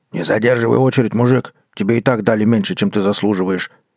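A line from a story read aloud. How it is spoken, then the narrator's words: Deep bass voice. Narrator (Russian): пробасили в окне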